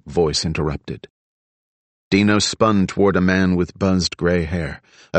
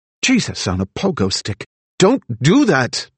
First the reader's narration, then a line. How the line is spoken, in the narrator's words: Dino blurted